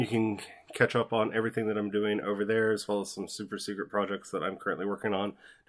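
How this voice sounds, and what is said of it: Strained, worn-out voice. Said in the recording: “I've been doing this long, too long. I've lost my voice.”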